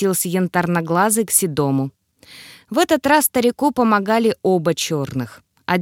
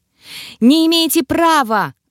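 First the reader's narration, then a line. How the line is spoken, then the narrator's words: Yelling lizard. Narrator (Russian): орала ящерица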